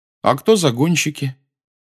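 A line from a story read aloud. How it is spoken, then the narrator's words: Forced even question. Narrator (Russian): по возможности, ровным голосом спросил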